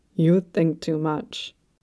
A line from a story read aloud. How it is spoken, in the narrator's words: rumbled